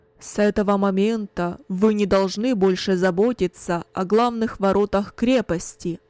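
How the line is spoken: Loud, commanding announcement. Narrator (Russian): Кунерих громко, властным голосом объявил

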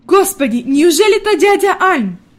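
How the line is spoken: Grandmother exclaiming, pleasantly surprised. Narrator (Russian): воскликнула бабушка в приятном удивлении

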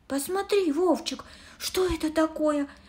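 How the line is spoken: Exclaimed. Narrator (Russian): воскликнула

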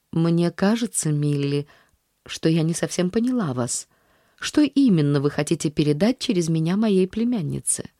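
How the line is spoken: Calm statement. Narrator (Russian): спокойно заявив

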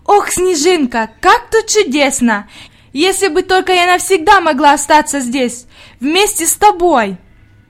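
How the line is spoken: Exclamation. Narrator (Russian): Она воскликнула

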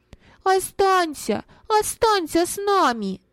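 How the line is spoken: Children shouting in unison. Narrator (Russian): дети в один голос закричали

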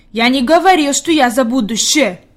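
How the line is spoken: Angry. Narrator (Russian): Питер сердито сказал

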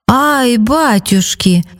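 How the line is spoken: Exclamation. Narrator (Russian): воскликнул

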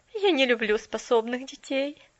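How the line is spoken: Stubborn objection. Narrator (Russian): упрямо возразила мисс Керрю и тут же засмеялась

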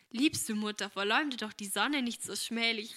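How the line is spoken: Mock indignant exclamation. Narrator (German): rief Agnes mit komischer Entrüstung

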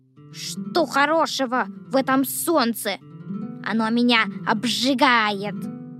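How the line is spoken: Grumbling. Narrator (Russian): ворчал дождевой червяк

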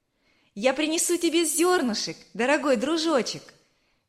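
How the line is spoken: Cheerful shout. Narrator (Russian): весело крикнула Верочка

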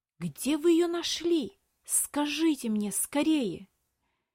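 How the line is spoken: Boy's strained whisper. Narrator (Russian): С трудом сдерживая, прошептал мальчик

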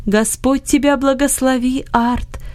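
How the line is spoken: Joyful voice. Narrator (Russian): сказал Иосиф радостным голосом

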